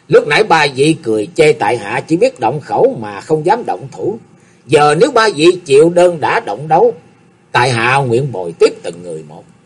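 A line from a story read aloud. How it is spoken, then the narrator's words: Smug, laughing loudly. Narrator (Vietnamese): Âu Dương Dân Phi thấy mình đoán định không lầm, thì đắc ý cười lớn nói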